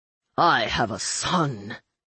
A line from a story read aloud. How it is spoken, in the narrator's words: Cademan snarled